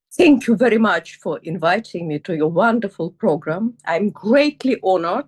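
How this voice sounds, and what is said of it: Russian accent. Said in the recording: “it is very obvious that I was not born in the United Kingdom, and I'm not hiding my accent. Here it is. I was born in Soviet Russia”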